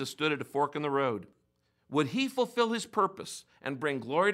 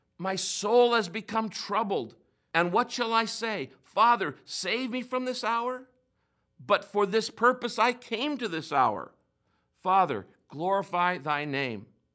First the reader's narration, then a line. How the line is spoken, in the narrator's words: Knowing that he was about to be crucified, he cried out